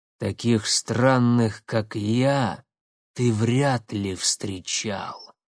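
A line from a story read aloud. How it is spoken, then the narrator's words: Half-spoken, half-growled. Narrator (Russian): наполовину произнес, наполовину прорычал незнакомец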